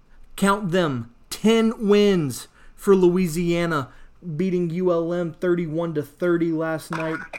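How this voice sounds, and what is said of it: Excited, energetic voice. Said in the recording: “I don't know if you can hear the excitement in my voice”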